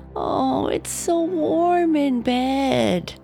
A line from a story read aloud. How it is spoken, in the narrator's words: Natalie would moan